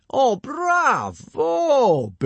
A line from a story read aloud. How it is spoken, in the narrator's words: boomed Gobber